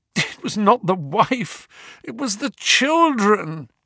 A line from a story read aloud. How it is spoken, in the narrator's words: groaned the prisoner